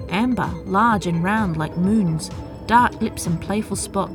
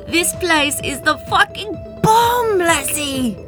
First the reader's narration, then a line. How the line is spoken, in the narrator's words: she shouted